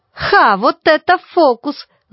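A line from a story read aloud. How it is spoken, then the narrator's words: Ringing shout. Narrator (Russian): звонко выкрикнул Гделевский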